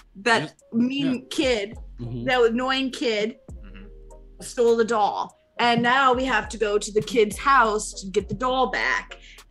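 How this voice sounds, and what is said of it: Speaks in a put-on accent. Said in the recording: “Is the accent over, by the way? Tell me when the accent.”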